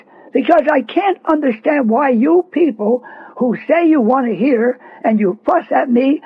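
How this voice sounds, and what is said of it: Raised, loud voice. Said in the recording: “raising my voice”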